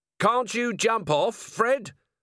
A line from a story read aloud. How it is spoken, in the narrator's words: Vimes yelled as he ran along behind